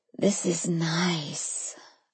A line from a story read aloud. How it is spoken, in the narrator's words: I murmured